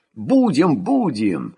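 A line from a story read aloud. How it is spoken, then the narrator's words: Soldiers' cheerful promise. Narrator (Russian): сулились военные весело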